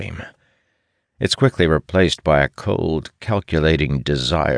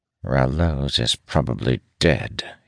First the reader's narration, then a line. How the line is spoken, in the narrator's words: he mutters